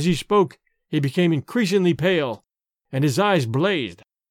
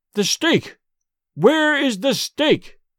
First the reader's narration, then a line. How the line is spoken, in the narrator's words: cried Dorda